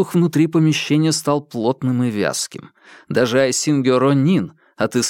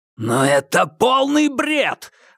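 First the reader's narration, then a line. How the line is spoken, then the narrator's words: Roaring. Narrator (Russian): взревел Гао Далунь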